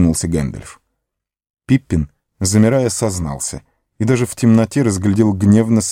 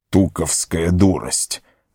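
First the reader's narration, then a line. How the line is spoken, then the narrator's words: Annoyed grumble. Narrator (Russian): с досадой проворчал Гэндальф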